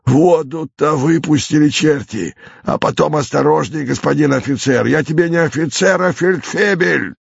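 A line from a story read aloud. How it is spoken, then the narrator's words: Irritated hoarse voice. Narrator (Russian): раздается совершенно такой же раздраженный и почему-то такой же хриплый голос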